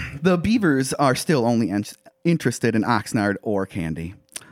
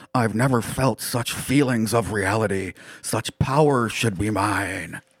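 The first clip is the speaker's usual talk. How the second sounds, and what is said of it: Character voice of an alien object. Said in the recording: “my best interdimensional object impersonation”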